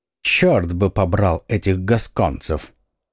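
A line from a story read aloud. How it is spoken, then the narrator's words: Mutter. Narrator (Russian): все же пробормотал он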